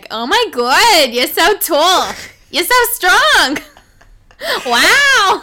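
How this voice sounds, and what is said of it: Fake East Coast American accent. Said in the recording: “a fake like East Coast accent ... You sound like the mom in Bob's Burgers.”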